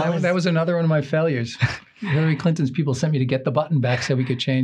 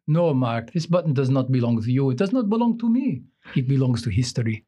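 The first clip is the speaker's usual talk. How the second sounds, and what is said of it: Heavy Russian accent impression. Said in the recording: “the very Russian accent”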